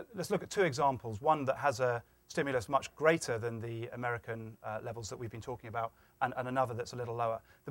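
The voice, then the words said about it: Foreign, non-American accent. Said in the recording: “I know you have an accent, you're from another country.”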